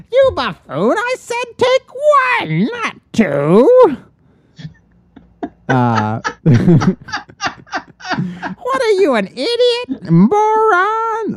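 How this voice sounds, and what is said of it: Menacing cartoon villain voice. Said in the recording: “in my Skeletor voice”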